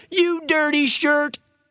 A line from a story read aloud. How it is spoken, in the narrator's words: the Eagle who had suggested earlier that they be friends was heard shouting